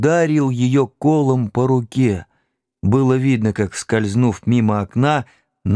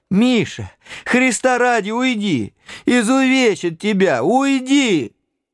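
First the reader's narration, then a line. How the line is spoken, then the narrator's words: Old woman shouting. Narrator (Russian): Бабушка закричала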